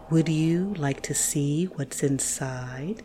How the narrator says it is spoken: His voice was smooth and syrupy

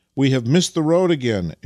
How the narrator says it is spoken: exclaimed Vasily

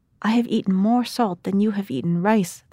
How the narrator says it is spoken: they shouted

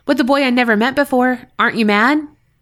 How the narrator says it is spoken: blurted

